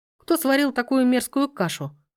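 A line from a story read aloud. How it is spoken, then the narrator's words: Scoffing. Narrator (Russian): хмыкнул он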